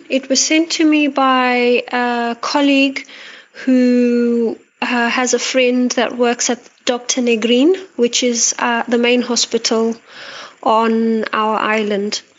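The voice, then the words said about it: Antipodean twang, Australian-sounding accent. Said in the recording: “sounds a bit like an Australian accent, but it might also be South African. It's an Antipodean twang, this lady's accent.”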